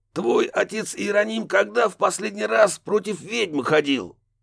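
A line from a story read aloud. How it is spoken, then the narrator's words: Snapping retort. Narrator (Russian): огрызнулся Рафаэль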